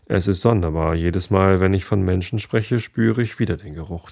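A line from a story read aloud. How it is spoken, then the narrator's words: Plain. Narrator (German): sagte er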